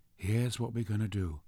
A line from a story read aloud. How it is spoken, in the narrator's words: he said, and his voice was all calm authority